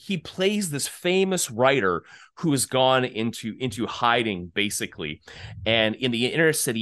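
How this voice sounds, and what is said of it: Usual voice. Nothing is said of it.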